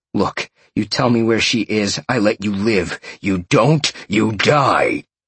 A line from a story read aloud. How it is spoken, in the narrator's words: Sean growled